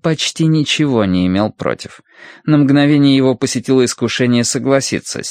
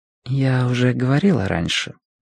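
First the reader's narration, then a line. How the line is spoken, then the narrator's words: Quiet, modest. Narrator (Russian): тихо произнесла Сюйлян, скромно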